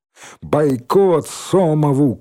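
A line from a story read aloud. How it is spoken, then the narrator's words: Shouting. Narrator (Russian): крикнула железная кнопка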